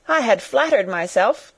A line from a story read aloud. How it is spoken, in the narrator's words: cried young Wharton with a laugh